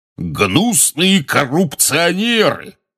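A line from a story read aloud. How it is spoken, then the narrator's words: Roaring portrait of wizard. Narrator (Russian): взревел портрет дородного красноносого волшебника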